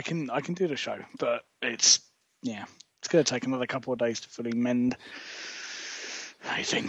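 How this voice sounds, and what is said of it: Husky, deep voice after losing it. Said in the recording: “Oh, you're very husky. ... I lost my voice Monday night yesterday. I couldn't speak ... I sound like a movie trailer voiceover, don't I?”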